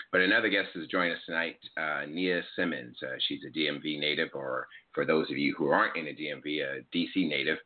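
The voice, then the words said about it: Slightly raspy voice. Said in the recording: “I may have caught a cold or something, so my voice is a little raspy”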